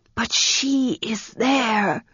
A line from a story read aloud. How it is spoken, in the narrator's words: the girl whispered